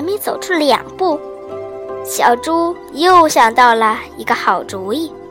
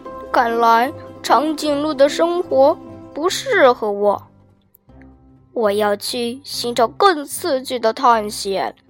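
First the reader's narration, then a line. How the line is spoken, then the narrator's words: Sighing lament. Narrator (Chinese): 小猪感叹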